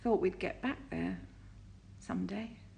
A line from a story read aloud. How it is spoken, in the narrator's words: he said brokenly